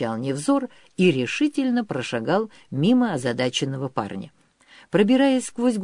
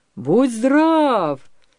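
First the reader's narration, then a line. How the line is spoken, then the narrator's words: Joyful shout, helmsman. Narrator (Russian): радостно закричал кормщик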